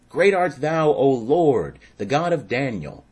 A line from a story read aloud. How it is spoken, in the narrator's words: the king cried out with a loud voice, saying